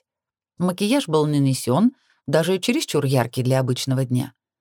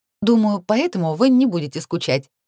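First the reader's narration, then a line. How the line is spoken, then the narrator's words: Laughing. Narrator (Russian): рассмеялась я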